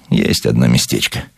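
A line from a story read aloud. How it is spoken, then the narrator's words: Evasive superstitious mutter. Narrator (Russian): уклончиво, суеверно пробормотал он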